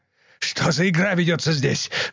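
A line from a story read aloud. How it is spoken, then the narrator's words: Yelling. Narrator (Russian): заорал он на капитана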